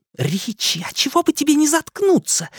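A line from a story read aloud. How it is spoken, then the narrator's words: Hissing. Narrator (Russian): зашипела на него Беверли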